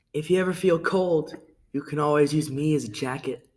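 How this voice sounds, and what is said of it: Attempted smooth, suave voice. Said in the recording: “I'm gonna try to do this in a smooth voice. ... Not that I can do that very well”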